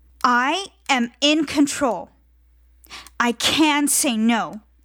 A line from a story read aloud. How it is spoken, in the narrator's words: shouted